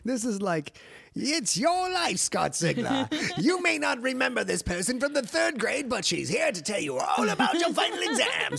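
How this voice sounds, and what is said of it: English game show host voice. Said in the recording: “sort of a New England fresh off the boat from Birmingham ... It's a good English game show voice”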